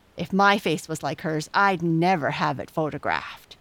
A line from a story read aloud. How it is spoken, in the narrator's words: snapped Jessie